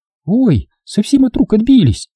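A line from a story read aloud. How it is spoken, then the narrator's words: Guilty squeak. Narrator (Russian): виновато пискнула Лиза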